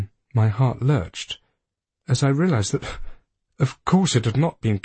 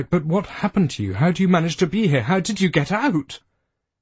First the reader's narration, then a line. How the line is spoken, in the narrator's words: I blurted out